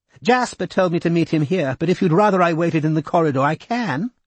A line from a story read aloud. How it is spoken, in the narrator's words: Kinvara said in a high, tight voice